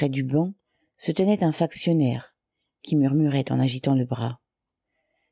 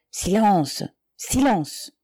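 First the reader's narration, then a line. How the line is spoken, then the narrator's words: Muffled, jerky speech. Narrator (French): continua à prononcer d'une voix sourde des paroles saccadées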